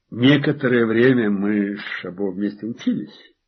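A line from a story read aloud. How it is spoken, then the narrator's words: Calm explanation. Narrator (Russian): спокойно пояснил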